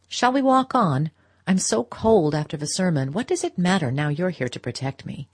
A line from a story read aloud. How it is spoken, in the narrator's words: rejoined in a lighter tone